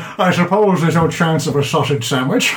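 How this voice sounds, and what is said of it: Put-on accent for a character. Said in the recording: “That was really good, actually ... That was decent with that accent.”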